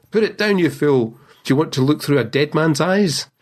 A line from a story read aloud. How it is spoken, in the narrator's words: old Baxter shouted out to him from the bed